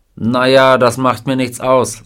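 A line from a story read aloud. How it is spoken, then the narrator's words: Plain. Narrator (German): sagte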